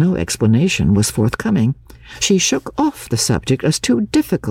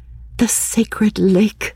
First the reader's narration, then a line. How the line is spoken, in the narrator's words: She exclaimed